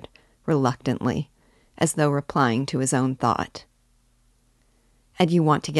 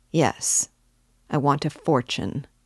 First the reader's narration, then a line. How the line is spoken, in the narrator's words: he answered firmly, after a brief pause